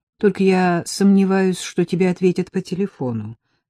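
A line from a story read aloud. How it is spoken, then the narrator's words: Plain. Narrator (Russian): сказал Колобок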